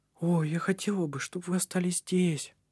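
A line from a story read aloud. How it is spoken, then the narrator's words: Sad whisper. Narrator (Russian): прошептала она грустно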